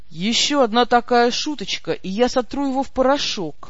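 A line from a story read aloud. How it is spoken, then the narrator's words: Grim promise. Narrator (Russian): мрачно пообещал господин Эгер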